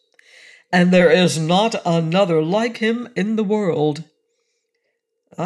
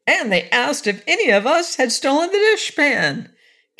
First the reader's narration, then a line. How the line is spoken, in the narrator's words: continued Corporal Waddle indignantly